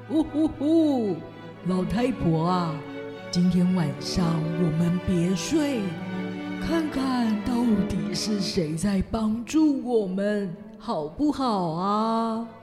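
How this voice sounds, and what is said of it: Quiet whispering old man's voice. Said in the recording (Chinese): “老鞋匠在他的太太耳边小声的说”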